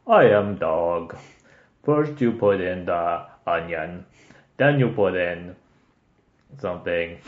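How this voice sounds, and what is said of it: Put-on French-Japanese dog voice. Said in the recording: “the dog's voice is like ... it's like a Japanese, like French, like dog accent that they're trying to do”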